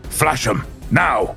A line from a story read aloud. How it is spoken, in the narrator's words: roared Smythe over the group wide vox